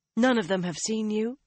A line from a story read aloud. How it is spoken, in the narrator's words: she asked anxiously